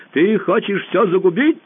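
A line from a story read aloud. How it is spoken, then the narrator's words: Shouting. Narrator (Russian): закричал он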